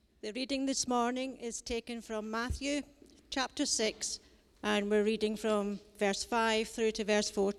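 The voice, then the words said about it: Broad Scottish accent. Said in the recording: “do it in her broadest Scottish accent”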